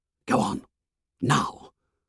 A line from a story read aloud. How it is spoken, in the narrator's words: He whispered urgently